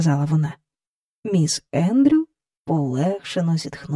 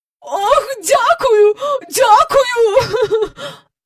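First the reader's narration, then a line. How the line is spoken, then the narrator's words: Cried out. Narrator (Ukrainian): скрикнула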